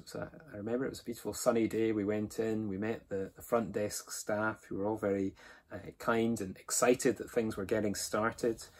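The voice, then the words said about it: Mild Scottish accent. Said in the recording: “my relatively mild Scottish accent”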